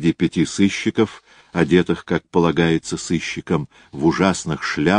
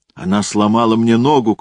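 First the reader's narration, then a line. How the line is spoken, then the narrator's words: Shouting. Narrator (Russian): кричал Контансон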